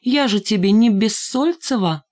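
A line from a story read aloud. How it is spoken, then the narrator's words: Teasing tender singsong. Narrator (Russian): нарочно подразнивала его, ласково напевая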